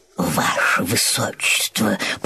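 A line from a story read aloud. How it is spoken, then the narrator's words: Old chamberlain's whisper in ear. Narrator (Russian): прошептал на ухо принцу старший камергер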